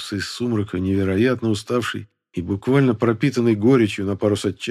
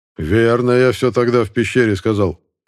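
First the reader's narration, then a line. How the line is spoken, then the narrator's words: Loud resonant bark. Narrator (Russian): звучно рявкнул Мискув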